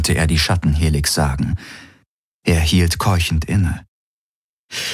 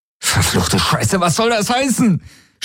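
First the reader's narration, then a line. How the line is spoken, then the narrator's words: Man shouting angrily. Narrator (German): schrie er sie an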